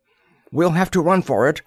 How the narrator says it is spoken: Darley cried

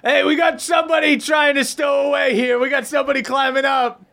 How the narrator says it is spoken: this guy turns around and yells to the boat

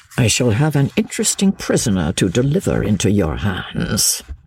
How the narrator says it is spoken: he said, with a chuckle

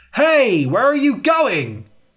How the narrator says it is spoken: He cried

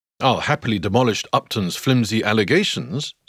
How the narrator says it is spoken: says the physician

